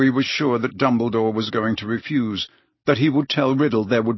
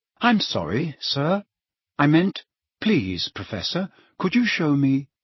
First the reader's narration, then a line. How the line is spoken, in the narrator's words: he said in an unrecognizably polite voice